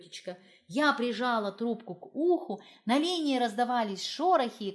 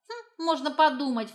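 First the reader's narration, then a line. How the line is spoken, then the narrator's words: Scoffing. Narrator (Russian): фыркнула Изольда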